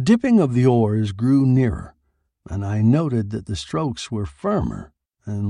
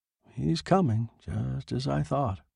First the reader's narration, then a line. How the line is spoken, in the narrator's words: I muttered